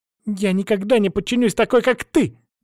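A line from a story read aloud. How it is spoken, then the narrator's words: Shout. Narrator (Russian): крикнула она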